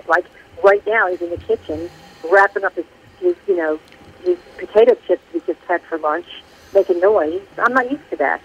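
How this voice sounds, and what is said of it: North Jersey accent. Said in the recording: “I just heard the North Jersey accent there. ... I like the Jersey accent.”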